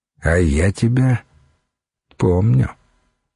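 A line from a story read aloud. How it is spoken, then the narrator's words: Soft, almost tender. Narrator (Russian): мягко, почти ласково произнес Богумил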